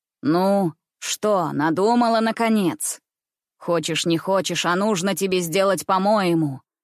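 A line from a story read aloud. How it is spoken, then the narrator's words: Rough. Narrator (Russian): Грубо проговорил он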